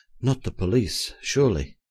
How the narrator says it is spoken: I whispered to him in some anxiety

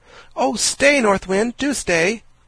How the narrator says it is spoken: cried Diamond, dismayed

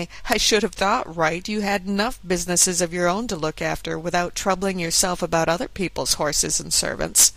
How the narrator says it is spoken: his companion, who said laughingly

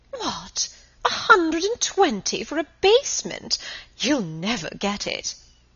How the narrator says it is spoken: exclaiming

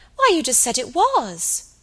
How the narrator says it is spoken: cried Dolly

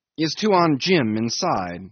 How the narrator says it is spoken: I asked impatiently

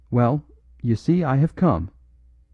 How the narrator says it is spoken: heard the new arrival say cheerfully

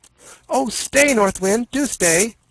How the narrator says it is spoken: cried Diamond, dismayed to see the windmill get slower and slower

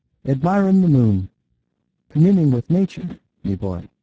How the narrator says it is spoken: he cried in pure Irish

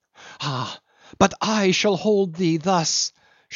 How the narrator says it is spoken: she cried

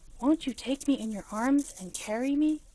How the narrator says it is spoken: he said in a whisper, for he knew she did not like a loud voice when she was small

